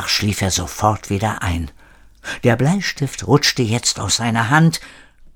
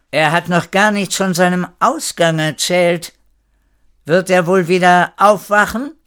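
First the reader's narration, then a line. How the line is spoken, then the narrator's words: Very loud call. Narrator (German): rief Frau Horatio so laut, als wollte sie Erik wecken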